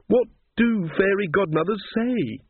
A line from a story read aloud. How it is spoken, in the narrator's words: She wailed